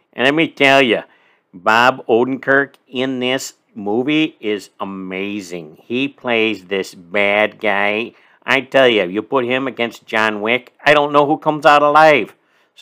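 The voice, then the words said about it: Put-on Chicago accent. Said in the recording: “Now I'm going to go in my Chicago accent. ... with a little Chicago accent.”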